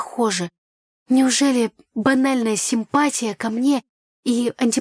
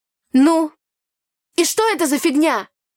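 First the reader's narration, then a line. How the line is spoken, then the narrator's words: Loud shout. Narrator (Russian): Громко выкрикнула я на весь берег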